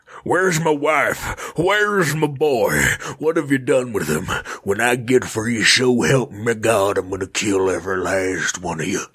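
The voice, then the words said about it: Cowboy character voice. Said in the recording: “in my cowboy voice”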